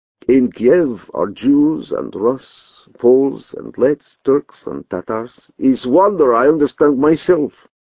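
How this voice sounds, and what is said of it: Foreign accent hard to place. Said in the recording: “I cannot place your accent. ... Is it because my accent has no place?”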